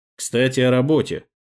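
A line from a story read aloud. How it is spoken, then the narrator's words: Amused snort. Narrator (Russian): хмыкнул собеседник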